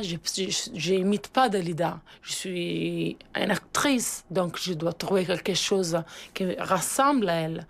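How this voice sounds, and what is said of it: Foreign accent in French, pleasant. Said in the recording (French): “Elle parle très, très bien français, maintenant... avec un accent vraiment très agréable”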